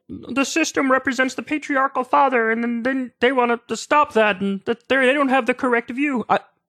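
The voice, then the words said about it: Poor imitation of another person's voice. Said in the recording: “terrible Jordan Peterson impression”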